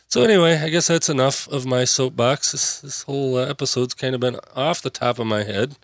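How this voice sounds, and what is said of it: Worn-out, hoarse voice. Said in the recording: “my voice is shot”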